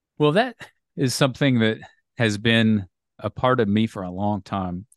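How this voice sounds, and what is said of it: American accent. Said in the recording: “you've got an American accent,”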